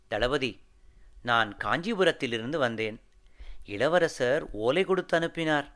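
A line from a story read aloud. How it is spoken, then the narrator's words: Humble, respectful voice. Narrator (Tamil): என்று பணிவான குரலில் வந்தியத்தேவன் மறுமொழி சொன்னான்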